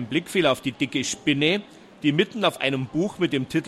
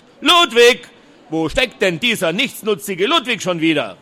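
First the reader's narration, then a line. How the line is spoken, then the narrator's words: Loud call. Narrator (German): rief er laut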